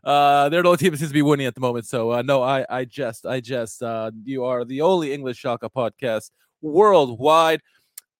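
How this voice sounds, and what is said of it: Slightly off voice from illness. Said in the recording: “My voice is a little off tonight... sick as a dog... I'm recovering, so my voice is a little bit better”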